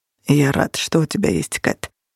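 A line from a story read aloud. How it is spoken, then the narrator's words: Quiet. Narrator (Russian): тихо произнес Минчерос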